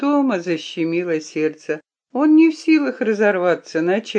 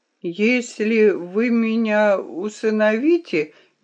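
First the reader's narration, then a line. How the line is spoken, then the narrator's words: Slow, strained. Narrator (Russian): медленно, с усилием начал Том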